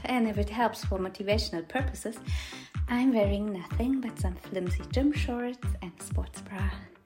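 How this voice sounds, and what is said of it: Woman with German accent. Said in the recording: “my little lady with a German accent bossing you around”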